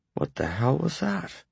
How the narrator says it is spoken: Carter asked very softly

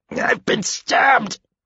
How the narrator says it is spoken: he said through clenched teeth, his voice raspy

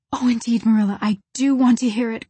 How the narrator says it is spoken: cried Anne contritely

